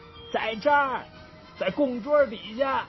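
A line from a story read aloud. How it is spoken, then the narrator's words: Sudden shout. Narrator (Chinese): 突然，狐狸喊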